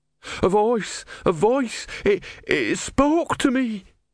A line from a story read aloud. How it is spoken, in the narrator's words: he wailed